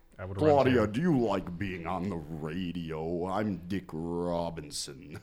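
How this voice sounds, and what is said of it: Imitates another person's voice. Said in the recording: “my voice, my impression changes all of a sudden ... that sounds just creepy ... Work on it. Just work on it. ... Not that bad, though.”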